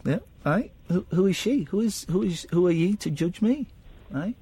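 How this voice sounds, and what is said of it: Unconvincing put-on Scottish accent. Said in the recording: “I wish I could do a Scottish accent, but I can't. Although that one's not so bad. It's not bad. It's not bad, the one I'm doing now. ... Doesn't sound Scottish to me.”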